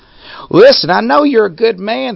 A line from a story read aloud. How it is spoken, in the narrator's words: the grandmother shrieked